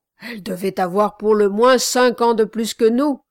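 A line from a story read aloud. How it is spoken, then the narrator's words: Exclaimed. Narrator (French): s'écria l'autre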